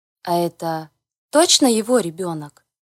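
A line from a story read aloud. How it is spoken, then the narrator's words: Plain question. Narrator (Russian): спросила я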